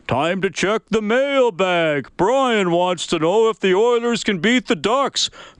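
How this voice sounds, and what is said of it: Imitates another person's voice. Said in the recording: “in my Bob Layton voice.”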